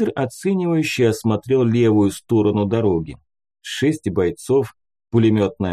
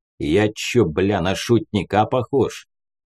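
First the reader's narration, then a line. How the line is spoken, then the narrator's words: Snorting. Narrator (Russian): фыркнул Буслай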